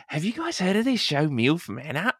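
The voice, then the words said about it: Put-on Australian accent. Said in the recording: “she's Australian ... I like the accent. Very good.”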